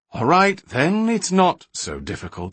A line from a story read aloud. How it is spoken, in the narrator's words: Balinor conceded wearily